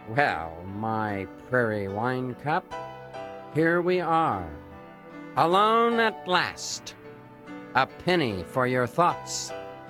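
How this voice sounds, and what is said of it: Smooth, suave voice. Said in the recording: “in my smoothest voice”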